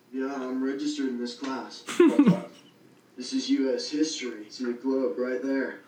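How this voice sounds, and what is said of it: Exaggerated California surfer accent. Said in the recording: “The most California fucking surfer accent of all time.”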